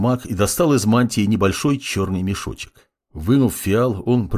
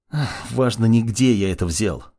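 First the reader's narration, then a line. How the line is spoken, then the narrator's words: Sighing mage. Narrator (Russian): вздохнул маг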